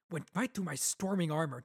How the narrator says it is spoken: Dalinar muttered

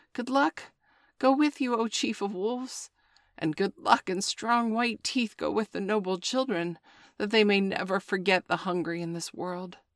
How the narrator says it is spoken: a little shadow with a bushy tail whined

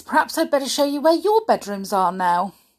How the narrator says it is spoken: began in a bright voice

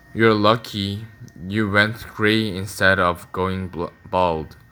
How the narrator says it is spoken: thought Jason wearily

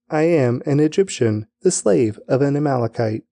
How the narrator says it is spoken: replied

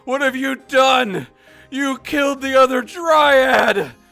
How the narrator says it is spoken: I shout at the wispy thing

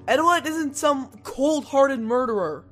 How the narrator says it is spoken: I yelled again

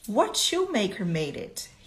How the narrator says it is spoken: he asked

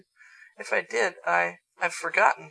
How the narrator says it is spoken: he stammered regretfully

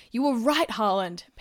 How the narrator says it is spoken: panted Bucky

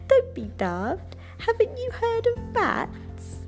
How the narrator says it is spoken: Night Monkey laughed and said

